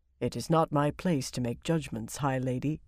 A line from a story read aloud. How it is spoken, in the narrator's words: he said gravely